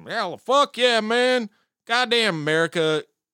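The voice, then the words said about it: Put-on Southern American accent. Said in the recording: “I can't do that Southern accent.”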